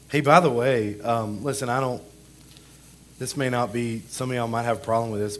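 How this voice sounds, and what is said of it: Voice sounds terrible. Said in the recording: “I know I sound terrible.”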